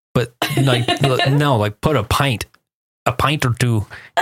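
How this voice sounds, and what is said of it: Bad put-on accent. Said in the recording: “That was the worst accent.”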